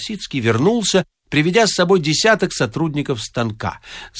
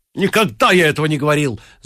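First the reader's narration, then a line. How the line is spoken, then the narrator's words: Shouted. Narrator (Russian): закричал Трубецкой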